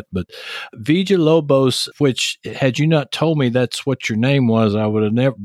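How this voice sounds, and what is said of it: Texas accent. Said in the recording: “I can't roll my R's like this. Texas accent just won't do that.”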